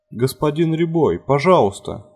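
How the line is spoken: Pleading. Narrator (Russian): взмолился Фарид

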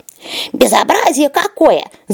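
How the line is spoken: Hissing. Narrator (Russian): зашипел ежик

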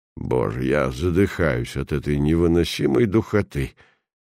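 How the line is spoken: Pampered, capricious tone. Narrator (Russian): Каким-то барски изнеженным капризным тоном вырвалось у графа

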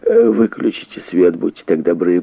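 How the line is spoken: Sleepy mutter. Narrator (Russian): пробормотал он

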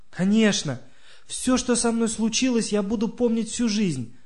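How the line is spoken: Exclaimed. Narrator (Russian): воскликнула Катя

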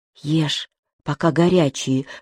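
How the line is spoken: Whisper. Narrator (Russian): шепнула она

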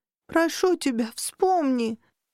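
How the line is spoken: Sobbing male. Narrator (Russian): Рыдая, он

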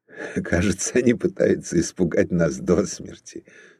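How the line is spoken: Laughing. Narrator (Russian): сказал он, смеясь

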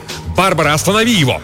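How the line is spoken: Desperate shout. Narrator (Russian): Отчаянно устремившись к победе, Лукас выкрикнул

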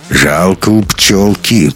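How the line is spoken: Through gritted teeth. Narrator (Russian): процедил бомж

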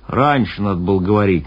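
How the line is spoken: Displeased sailor grumbling. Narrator (Russian): недовольно проворчал моряк

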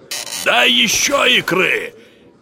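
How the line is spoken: Shout. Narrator (Russian): крикнул сосед

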